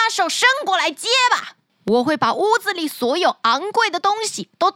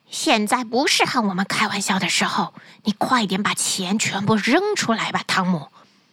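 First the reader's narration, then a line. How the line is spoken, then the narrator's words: Whispering. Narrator (Chinese): 小声地对汤姆说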